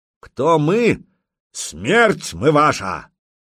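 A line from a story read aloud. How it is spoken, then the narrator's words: Loud. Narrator (Russian): громко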